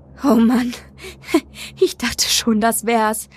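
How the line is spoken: Giggle. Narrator (German): kicherte

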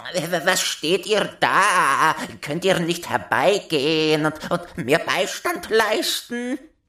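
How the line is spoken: Shouted. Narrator (German): schrie

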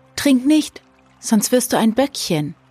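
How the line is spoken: Called out. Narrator (German): Alenuschka rief

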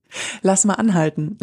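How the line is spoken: Laughing. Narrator (German): lachte

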